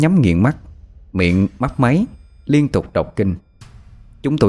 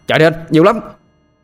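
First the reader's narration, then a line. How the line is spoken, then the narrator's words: Alarmed shout. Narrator (Vietnamese): Tôi hét lên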